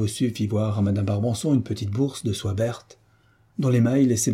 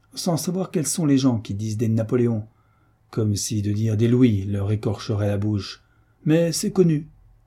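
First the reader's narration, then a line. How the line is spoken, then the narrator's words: Sardonic. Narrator (French): ajouta-t-elle d'un ton sardonique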